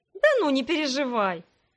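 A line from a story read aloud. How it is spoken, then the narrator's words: Laughing. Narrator (Russian): я рассмеялась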